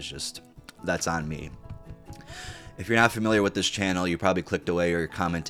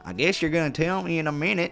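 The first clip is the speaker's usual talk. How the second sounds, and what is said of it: Put-on Southern American accent. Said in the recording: “Now I'm reading in a southern accent. Fuck it, he has a southern accent. ... I don't know why a southern accent came out when I was trying to do a British accent.”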